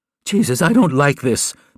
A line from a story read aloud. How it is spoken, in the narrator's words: Penny cried out